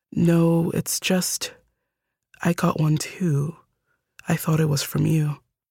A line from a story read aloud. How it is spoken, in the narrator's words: the sister said, in a quiet, uncertain tone